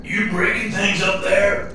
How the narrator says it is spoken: Papa Joey shouted

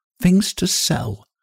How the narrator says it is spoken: she whispered

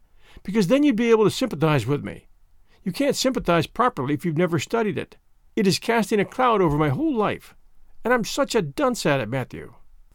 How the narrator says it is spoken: sighed Anne

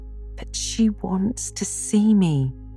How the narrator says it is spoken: pleaded Anne

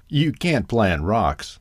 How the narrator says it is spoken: laughed the owl

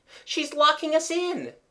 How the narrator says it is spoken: cried Jimmy

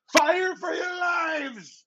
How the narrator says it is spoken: Ezra screams

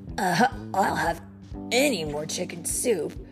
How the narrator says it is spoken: Raphael grumbled

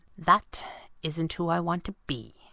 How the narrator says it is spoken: she said quietly

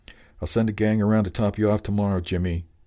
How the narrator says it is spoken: Murch shouted

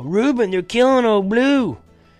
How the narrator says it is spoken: Rainey yell

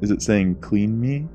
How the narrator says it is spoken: He laughs, loudly and heartily

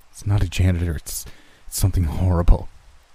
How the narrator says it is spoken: Chris muttered

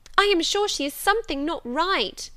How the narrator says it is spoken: they cried, one and all

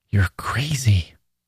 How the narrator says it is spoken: she whispered

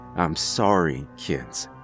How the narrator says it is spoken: I mutter

